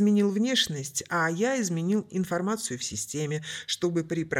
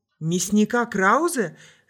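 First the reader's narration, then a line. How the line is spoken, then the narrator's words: Yelling, losing control. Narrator (Russian): заорал Оливер, сорвавшись второй раз подряд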